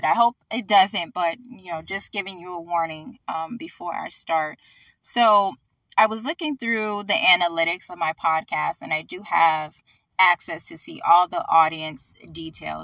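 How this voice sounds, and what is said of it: Slightly hoarse, fading voice. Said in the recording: “losing my voice a little bit... my voice may go out a little bit”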